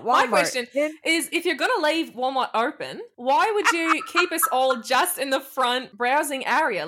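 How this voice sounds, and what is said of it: Convincing put-on American accent. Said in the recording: “in an American accent ... I would not know you were an American with that accent. That was pretty good.”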